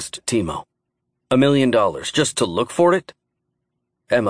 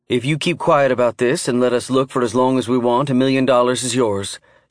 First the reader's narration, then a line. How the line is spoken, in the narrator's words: she said